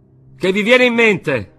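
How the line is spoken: Group shouting. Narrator (Italian): gridarono quelli

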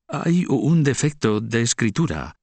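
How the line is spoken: Stammering. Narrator (Spanish): tartamudea

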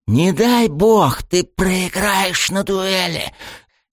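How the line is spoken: Venomous hiss. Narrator (Russian): Змеёй прошипел отец и по совместительству глава клана Кусуми Куруми Дотацу

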